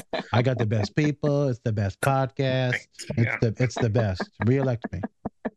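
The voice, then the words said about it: Impression of a politician. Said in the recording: “great impression ... I'm going to give him a red hat for Christmas”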